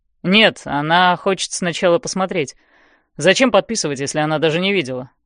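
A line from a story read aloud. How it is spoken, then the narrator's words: Dry. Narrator (Russian): сухо говорит Хардин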